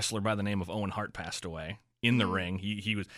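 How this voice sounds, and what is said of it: Usual voice. Nothing is said of it.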